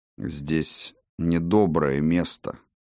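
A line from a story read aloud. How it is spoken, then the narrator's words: Quiet, after a pause. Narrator (Russian): помолчав, негромко сказал Хаген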